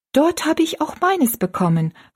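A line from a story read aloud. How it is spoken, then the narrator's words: Called out. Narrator (German): rief Rosalie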